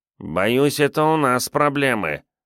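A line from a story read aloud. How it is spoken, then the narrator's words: Nasal voice from behind. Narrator (Russian): прогнусавил сзади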